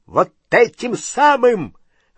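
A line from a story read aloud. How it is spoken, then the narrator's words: Shrill squeal. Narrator (Russian): взвизгнул дядя Вернон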